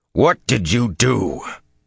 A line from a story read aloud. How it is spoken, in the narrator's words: Even deep in the cold, emotionless void as he was, his voice grated